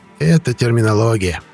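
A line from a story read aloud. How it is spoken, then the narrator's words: Soothing coo. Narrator (Russian): успокаивающе проворковал Шлюн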